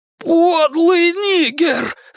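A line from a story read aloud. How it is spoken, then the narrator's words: Screamed. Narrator (Russian): завопил он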